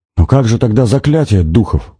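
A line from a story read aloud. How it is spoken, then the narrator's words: Exclamation. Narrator (Russian): воскликнул он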